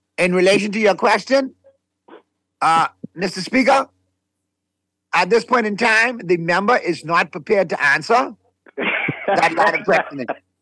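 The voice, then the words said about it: Impression of the Prime Minister. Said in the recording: “Let me do my impersonation. Hold on, let me do my impersonation of our Prime Minister.”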